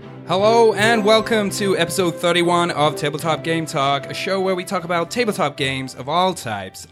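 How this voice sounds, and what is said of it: Put-on American accent. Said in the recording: “Was that an American accent? ... Just a little bit. ... that sounded just like you were from Austin ... We got to work on that American accent.”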